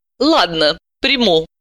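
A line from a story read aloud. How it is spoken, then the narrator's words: Grudging, angry. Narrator (Russian): сердито сдалась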